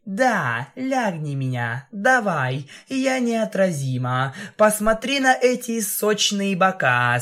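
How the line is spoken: Laughing. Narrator (Russian): Смеялась

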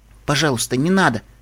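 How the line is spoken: Quiet plea. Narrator (Russian): тихо попросила Сансет

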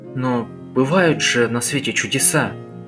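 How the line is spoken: Hesitant. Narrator (Russian): неуверенно произнес он

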